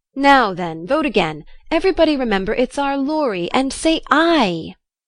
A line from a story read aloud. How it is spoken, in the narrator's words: cried Snodgrass excitedly